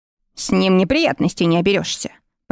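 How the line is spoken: Muttered. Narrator (Russian): пробормотал Николас

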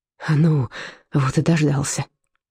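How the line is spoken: Exhaled. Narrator (Russian): выдохнул Карлсруин

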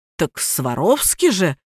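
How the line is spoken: Confused reminder. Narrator (Russian): растерянно напомнил Тёма

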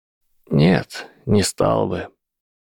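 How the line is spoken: Tired, sad reply. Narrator (Russian): устало и печально отозвался Альбус

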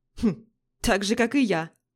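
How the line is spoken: Snorting. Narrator (Russian): фыркнул другой мужчина

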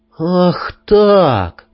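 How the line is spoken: Through gritted teeth. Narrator (Russian): процедил я

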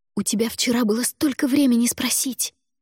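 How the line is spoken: Hissed. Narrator (Russian): прошипела

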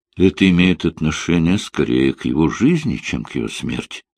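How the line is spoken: Gentle clarification. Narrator (Russian): мягко уточнил Линли

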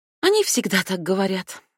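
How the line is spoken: Sighing. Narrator (Russian): вздохнула печать

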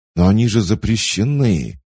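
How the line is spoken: Stifled exclamation. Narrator (Russian): сдавленно воскликнул Марк

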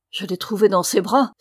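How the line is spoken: Lady exclaiming. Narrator (French): s'écrie la signora

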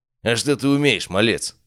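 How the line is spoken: Dismissive snort. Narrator (Russian): хмыкнул он

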